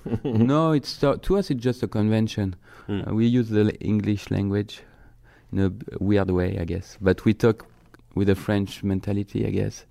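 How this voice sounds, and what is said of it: French accent speaking English. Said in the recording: “you can talk in that French accent all day”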